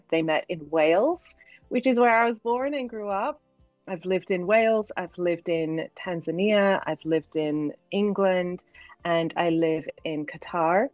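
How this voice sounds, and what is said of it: British accent with hard-to-place mix. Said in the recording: “you might be able to hear from my accent, I'm British, but it sounds like British with a mix of something that people can never quite place ... my accent is a mixture of all of my experiences”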